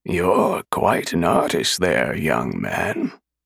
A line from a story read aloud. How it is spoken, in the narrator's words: a raspy voice said